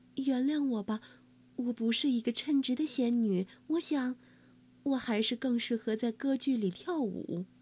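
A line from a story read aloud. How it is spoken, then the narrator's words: Helpless sigh, apologetic. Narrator (Chinese): 仙女无奈的叹了口气，抱歉的说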